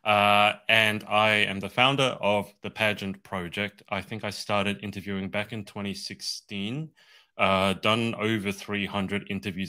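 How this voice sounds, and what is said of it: Australian accent. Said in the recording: “I'm from Australia. That's why I have this weird accent.”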